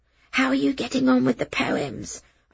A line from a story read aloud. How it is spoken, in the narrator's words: I whispered, keeping my voice down